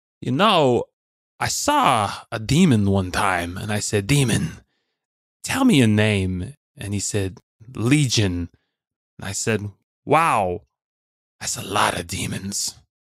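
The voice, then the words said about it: Christopher Walken impression. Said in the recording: “my best impression of Christopher Walken auditioning to play Father Martins”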